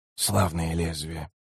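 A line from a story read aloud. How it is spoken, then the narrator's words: Muttered. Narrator (Russian): пробормотал Котильон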